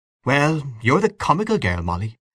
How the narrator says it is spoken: said Mrs

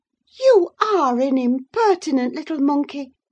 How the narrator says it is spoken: exclaimed Mrs

